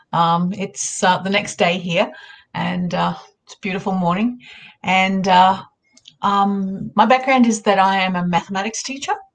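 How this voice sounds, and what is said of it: Australian accent. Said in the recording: “I'm an Australian. You'd be able to tell by my accent.”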